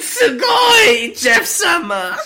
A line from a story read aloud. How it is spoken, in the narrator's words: Jeff screamed